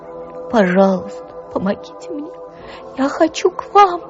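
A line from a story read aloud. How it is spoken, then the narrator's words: Loud moan. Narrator (Russian): Громко простонал Коля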